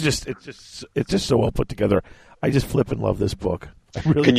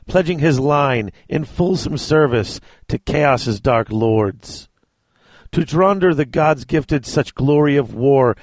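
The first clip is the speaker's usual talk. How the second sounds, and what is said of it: Dramatic reading voice. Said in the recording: “in your best dramatic voice”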